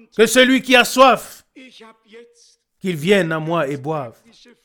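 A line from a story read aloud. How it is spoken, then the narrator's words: Loud cry. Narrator (French): notre Seigneur s'écrie d'une voix forte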